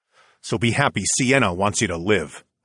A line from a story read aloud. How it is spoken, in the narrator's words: I growled back over my shoulder